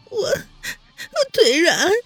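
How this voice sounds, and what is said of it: Soft, tearful small voice. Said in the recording (Chinese): “哭着脸， 小声的说道”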